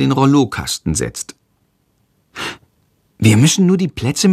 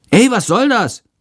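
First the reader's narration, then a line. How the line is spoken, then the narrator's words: Angry shout. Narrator (German): ruft der Schüler wütend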